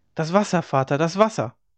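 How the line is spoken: Called out. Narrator (German): rief

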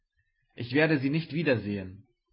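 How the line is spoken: Exclaimed. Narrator (German): rief er aus

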